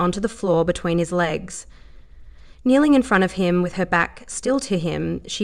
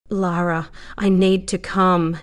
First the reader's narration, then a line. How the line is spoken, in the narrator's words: he said with ragged breath